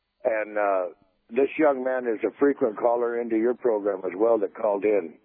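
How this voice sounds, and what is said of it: Hoarse voice from laryngitis. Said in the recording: “I'm suffering from a little laryngitis”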